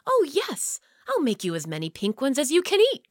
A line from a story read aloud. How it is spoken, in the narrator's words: cried Sam